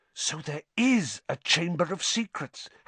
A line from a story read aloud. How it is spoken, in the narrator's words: Harry whispered